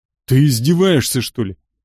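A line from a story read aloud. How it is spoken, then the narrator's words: Roared. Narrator (Russian): взревел охотник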